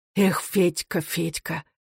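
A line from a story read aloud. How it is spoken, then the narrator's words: Sad whisper, head lowered. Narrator (Russian): шептал Сизов, опустив голову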